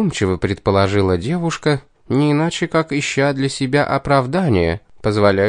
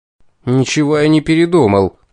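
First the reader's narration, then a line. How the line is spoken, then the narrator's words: Desperate exclamation. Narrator (Russian): в приступе отчаяния воскликнул я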